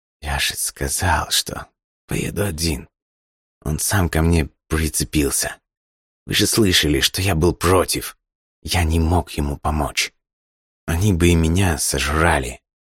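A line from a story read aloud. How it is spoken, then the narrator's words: Quiet, hunted. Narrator (Russian): затравленно тихо произнес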